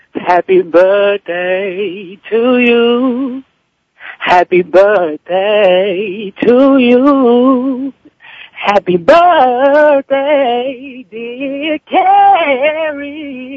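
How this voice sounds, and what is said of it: Slightly hoarse singing voice. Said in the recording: “I'm a little hoarse from praise and worship yesterday”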